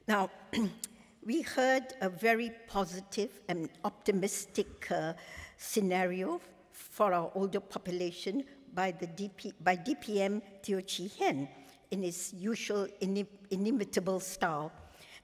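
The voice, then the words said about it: Slightly hoarse voice. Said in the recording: “I'm a bit under the weather, so my voice is a little bit hoarse.”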